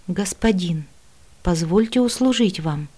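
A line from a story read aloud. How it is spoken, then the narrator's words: Soft high melodic voice. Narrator (Russian): негромко произнес высокий мелодичный голос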